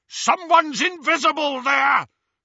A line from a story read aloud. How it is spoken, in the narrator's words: shouted a masked Death Eater